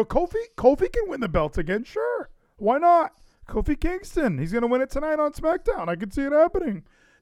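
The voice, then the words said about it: Raised-pitch imitation of another person. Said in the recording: “Larson is he is the upper register guy. Like when he's saying something he doesn't believe, he automatically goes up like this, like every time.”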